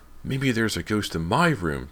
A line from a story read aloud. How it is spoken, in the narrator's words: James exclaimed excitedly